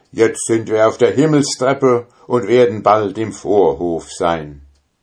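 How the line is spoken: Called out. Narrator (German): rief er

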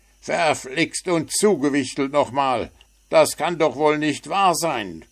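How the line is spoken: Shout. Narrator (German): schrie Puh

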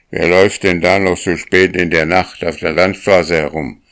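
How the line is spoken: Farmer's stern question. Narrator (German): fragte der Bauer mit strenger Stimme

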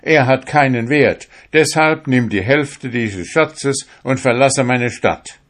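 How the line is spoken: Shout. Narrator (German): schrie

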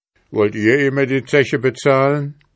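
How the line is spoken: Calling out. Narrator (German): rief jetzt der Korporal

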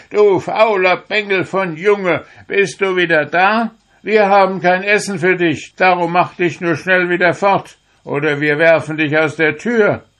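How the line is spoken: Shouting. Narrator (German): Seine Mutter und Schwestern ... das alte Liedlein wieder anfingen und schrien

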